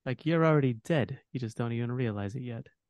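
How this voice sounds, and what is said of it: Mobster-style voice. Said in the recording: “I could hear it like a mobster ... mobster vibes”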